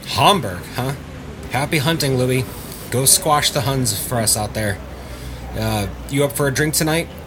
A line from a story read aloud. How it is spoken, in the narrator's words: Parnell asked